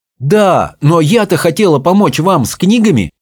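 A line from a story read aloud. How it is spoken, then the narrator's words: Exclaiming. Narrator (Russian): воскликнула Чармейн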